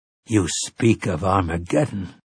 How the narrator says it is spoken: Callahan said in a low, troubled voice

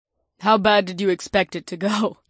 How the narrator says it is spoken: Naomi chuckled

